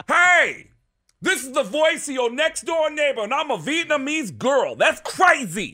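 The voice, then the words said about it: Tracy Morgan style Bronx voice. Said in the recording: “everybody in the Bronx sounds like Tracy Morgan. Like everybody in the Bronx talk like this”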